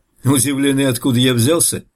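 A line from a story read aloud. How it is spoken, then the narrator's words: Laughing. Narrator (Russian): рассмеялся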